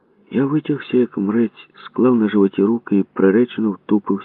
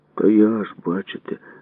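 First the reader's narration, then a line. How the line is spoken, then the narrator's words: Sigh. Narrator (Ukrainian): зітхнув я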